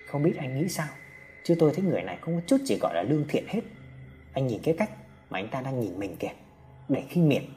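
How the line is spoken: Soft murmur. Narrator (Vietnamese): Trọng nói khẽ với ba mình

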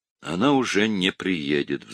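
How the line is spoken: Sighed. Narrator (Russian): вздохнул Люкас

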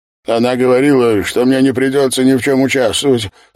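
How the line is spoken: Rapid, anxious babbling. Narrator (Russian): стал лепетать Зортфернанд, столь быстро, будто боялся, что не успеет закончить

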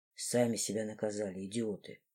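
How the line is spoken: Whispering into hair. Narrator (Russian): шептал мне лорд в волосы

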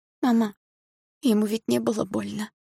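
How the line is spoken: Hoarse, tearful, frightened whisper. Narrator (Russian): хриплым от слез голосом прошептала я, испуганно

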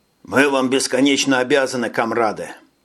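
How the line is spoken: Plain. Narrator (Russian): сказал Хольмер

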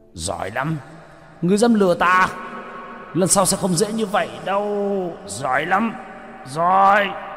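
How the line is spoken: Furious roar. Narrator (Vietnamese): Hải Xoa gầm lên tức tối

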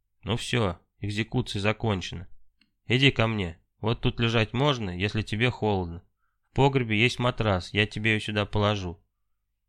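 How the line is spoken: Calm voice. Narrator (Russian): уже спокойным голосом сказал

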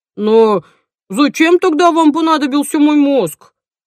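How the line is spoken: Offended. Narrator (Russian): обиженно сказал он

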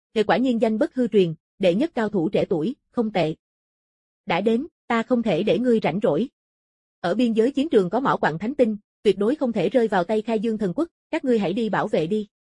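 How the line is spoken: Loud laughter. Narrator (Vietnamese): Tần Công cười lớn

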